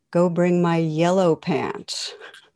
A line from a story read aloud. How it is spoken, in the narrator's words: The captain calmly replies